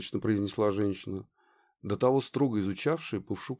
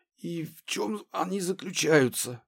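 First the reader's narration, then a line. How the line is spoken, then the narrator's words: Wheezing voice. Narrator (Russian): Он просипел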